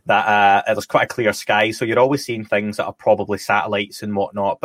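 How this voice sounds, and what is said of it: Scottish accent. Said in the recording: “I'm Scottish, as people can probably tell from the dodgy accent”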